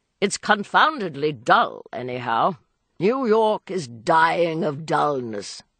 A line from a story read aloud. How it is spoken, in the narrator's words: Beaufort grumbled